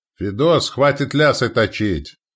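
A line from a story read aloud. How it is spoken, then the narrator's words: Shouted. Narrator (Russian): крикнул сотник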